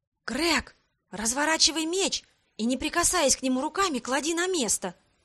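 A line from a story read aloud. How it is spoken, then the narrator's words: Soft command. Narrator (Russian): Тихонько велела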